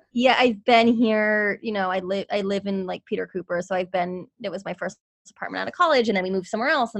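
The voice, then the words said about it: New Jersey accent. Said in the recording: “Are you from New York? ... New Jersey ... I can tell your accent.”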